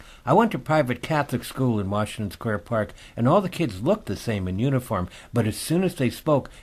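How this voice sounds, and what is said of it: Usual voice. Nothing is said of it.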